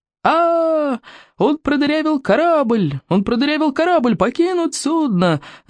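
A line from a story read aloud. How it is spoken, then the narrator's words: Crewman yelling. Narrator (Russian): заорал кто-то из команды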